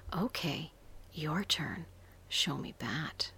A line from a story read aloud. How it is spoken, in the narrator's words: giggled